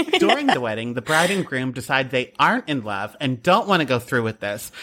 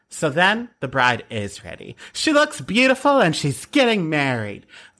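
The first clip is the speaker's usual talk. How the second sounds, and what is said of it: Parker Posey impression, sounding like Jennifer Coolidge. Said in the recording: “That was my Parker Posey impression, but it kind of sounded like Jennifer Coolidge.”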